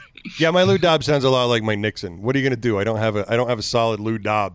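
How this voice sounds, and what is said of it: Usual voice. Nothing is said of it.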